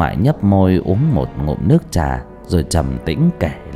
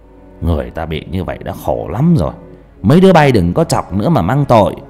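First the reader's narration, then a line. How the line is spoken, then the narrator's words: Old man scolding. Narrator (Vietnamese): Ông ngoại thấy thế, quát mấy đứa nhỏ, kêu lại và bảo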